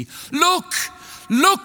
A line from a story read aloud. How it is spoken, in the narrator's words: cried the tree